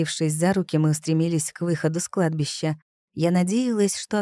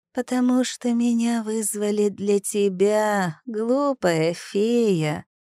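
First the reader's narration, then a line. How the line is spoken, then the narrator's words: Creaky spirit voice. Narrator (Russian): проскрипел дух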